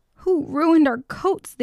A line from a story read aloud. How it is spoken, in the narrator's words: they roared